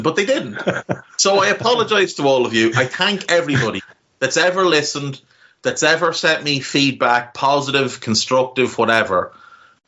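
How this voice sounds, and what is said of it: Irish Navan accent. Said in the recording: “this horrible, scummy Navan accent”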